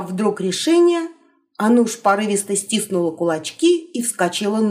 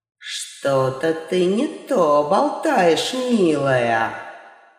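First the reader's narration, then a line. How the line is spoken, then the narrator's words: Witch, threatening through teeth. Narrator (Russian): С угрозой процедила ведьма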